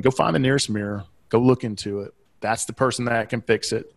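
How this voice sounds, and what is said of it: Southeastern American accent. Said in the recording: “my Southeastern accent”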